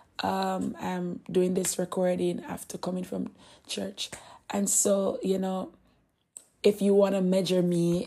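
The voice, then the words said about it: Hoarse voice. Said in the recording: “If you're hearing my voice, it's hoarse, and it's because I was really singing in church.”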